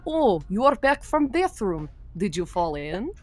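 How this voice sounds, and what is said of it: Thick Russian accent, deadpan. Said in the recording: “she had a thick Russian accent, so it would just be like, and she was so deadpan,”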